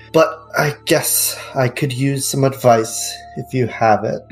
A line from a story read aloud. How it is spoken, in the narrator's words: gives a slight sigh, but then he's like